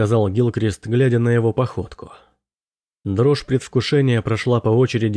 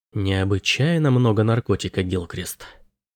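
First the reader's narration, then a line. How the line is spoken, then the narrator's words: Whisper. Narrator (Russian): прошептал он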